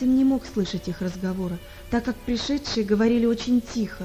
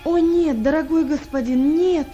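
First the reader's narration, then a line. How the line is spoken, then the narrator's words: Desperate exclamation. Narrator (Russian): воскликнул в отчаянии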